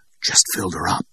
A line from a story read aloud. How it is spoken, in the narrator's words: she whispered back